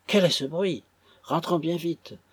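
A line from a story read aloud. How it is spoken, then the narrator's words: Exclaiming. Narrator (French): s'écria Madame Clennam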